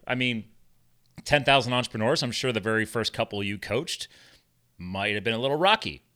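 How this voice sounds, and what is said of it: Smooth radio-style voice. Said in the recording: “you have a radio voice... you really do.”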